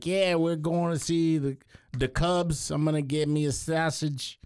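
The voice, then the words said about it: Put-on Chicago accent. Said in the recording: “in Chicago, he could be talking like”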